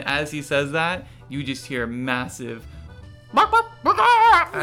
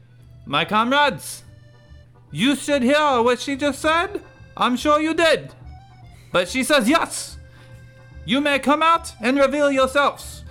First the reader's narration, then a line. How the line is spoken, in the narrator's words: Nigel screams out loud